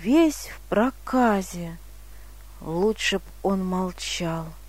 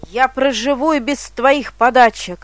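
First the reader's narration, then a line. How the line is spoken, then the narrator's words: Leper shouting after her. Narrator (Russian): прокаженный ей во след кричал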